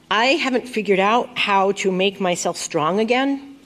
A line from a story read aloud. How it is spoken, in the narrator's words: I said